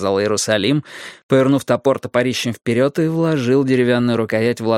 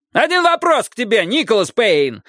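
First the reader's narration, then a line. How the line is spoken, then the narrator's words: Yelled. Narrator (Russian): заорал Джеймс Рид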